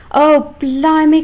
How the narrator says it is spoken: cried another office worker

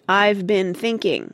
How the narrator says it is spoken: said Jo, raising her voice

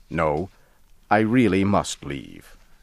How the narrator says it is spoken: I said firmly

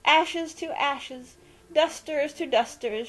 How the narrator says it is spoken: cried loudly

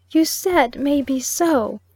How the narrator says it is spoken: sobbed the child

